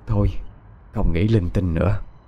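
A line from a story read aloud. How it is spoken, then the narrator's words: Old woman sighing. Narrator (Vietnamese): Bà thở dài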